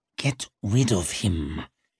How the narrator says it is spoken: hissed Glockter

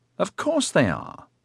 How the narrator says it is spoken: Evox exclaimed indignantly

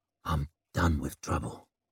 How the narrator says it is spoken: he whispered

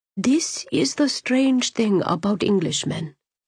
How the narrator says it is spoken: Saraj murmured to Sienny, his breath caressing her forehead

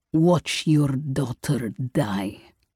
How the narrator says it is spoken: growled through bared teeth

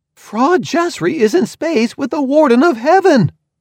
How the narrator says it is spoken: I shouted, just to hear it

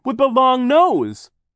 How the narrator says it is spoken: Klaus cried

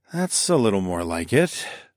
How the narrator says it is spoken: I sighed

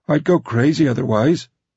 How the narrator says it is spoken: pleaded

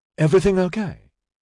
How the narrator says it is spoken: Dinlay asked anxiously

